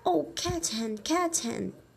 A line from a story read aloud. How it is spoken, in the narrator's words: they cried